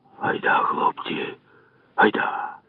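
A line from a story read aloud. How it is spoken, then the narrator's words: Old man whispering. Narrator (Ukrainian): шепнув дід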